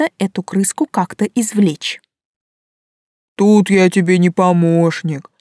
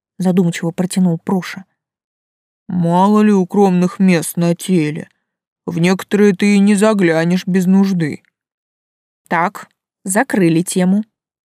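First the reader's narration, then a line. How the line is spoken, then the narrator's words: Steely, firm voice. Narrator (Russian): сказала я железным голосом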